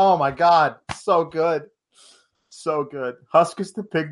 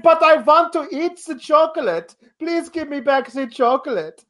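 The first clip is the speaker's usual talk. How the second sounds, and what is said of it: Augustus Gloop character accent. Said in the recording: “he's got an Augustus Gloop accent from Charlie and the Chocolate Factory. It's glorious.”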